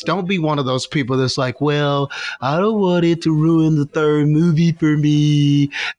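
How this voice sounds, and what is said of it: Put-on specific accent, imitating someone. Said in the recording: “That was such a specific accent. I feel like that was a certain person that you heard that from”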